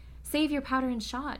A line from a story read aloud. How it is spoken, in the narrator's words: cried the fox